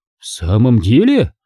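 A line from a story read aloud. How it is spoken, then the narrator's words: Exclaiming. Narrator (Russian): воскликнул Урквидекс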